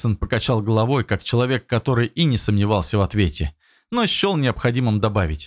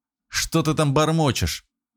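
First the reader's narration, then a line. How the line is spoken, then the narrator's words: Angry mutter. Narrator (Russian): зло буркнул Черных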